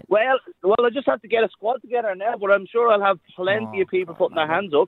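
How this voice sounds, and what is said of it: Irish accent. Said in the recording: “It's Irish. ... It is an accent. That's a beautiful Irish accent.”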